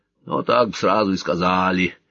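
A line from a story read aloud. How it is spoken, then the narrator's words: Grumbling from outside. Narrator (Russian): проворчали за воротами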